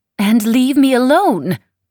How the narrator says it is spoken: cried the Baronessa, as though Ieva had proposed taking her out into the storm and blindfolding her

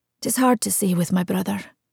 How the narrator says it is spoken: Murine muttered unhappily

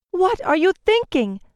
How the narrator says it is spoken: Eliseta cried

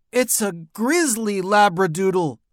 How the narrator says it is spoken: Alexia shouted

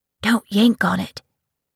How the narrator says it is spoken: her brother Adrian whispered

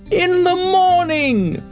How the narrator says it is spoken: cried all the other beetles

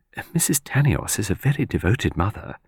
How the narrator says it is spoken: murmured

